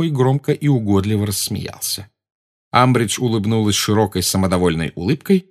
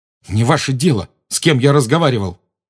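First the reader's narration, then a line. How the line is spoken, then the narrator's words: Snapping retort. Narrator (Russian): огрызнулся он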